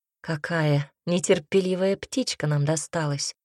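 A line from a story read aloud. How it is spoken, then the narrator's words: Hoarse rasp. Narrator (Russian): прохрипел Гариус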